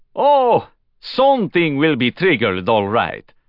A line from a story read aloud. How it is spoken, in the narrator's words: Ray Diaz said to him with a broad laugh